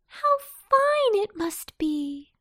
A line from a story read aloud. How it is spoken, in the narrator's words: she cried